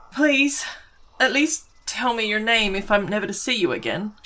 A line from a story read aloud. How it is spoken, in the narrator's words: pleaded as she called out, her breathing still a little heavy